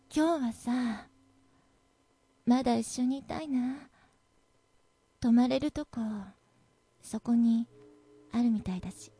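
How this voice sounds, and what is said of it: Moist, whispered voice. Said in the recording (Japanese): “湿った声でそう ささやくと”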